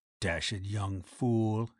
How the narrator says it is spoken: he murmured

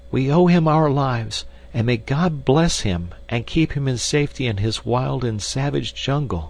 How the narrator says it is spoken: cried the girl

